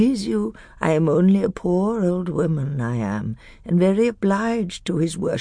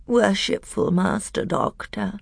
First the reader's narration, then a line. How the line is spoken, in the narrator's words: came a thin, whining voice